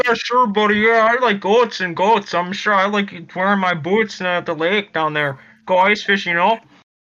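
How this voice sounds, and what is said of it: Exaggerated Upper Midwest accent. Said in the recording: “You have the accent. ... Except now he's being ironic about it.”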